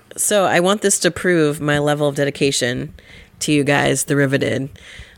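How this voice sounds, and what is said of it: Gravelly, lower, deep voice. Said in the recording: “my voice is a little gravelly, a little bit lower than usual ... my really deep voice”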